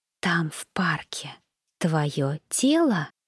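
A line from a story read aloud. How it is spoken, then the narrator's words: Silent mouthed whisper. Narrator (Russian): прошептала одними губами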